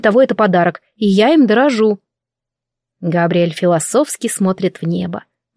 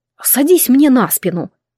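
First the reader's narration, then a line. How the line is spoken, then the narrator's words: Commanding. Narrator (Russian): распоряжается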